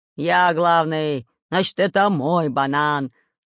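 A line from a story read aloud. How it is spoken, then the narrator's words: Growling. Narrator (Russian): рычал Буль-Буль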